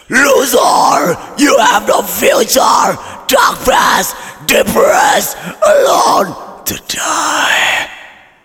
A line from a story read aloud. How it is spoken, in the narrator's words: a crowd of people wearing white clothes are yelling